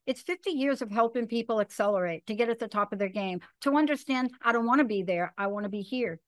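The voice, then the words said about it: Talking very fast. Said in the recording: “I'm talking very fast”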